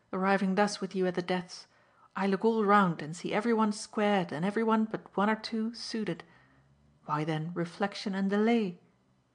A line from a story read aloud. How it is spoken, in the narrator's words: Mitchy exclaimed